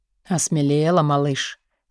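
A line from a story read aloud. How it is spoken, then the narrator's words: Hoarse close whisper. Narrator (Russian): Он хрипло шепчет мне в губы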